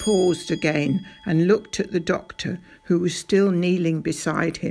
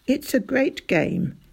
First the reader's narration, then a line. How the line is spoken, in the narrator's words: Doc Spencer said, sighing a little